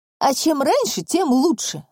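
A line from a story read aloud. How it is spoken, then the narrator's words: Snapping. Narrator (Russian): огрызнулась Наташа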